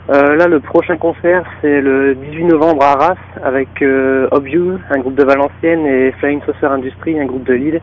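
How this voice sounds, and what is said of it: Northern French accent. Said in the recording (French): “le même accent que Jonathan ... c'est l'accent du Nord”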